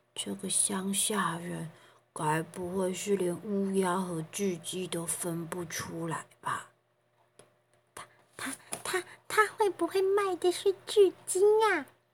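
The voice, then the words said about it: Quiet, hushed speaking. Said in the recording (Chinese): “小小声的讨论着”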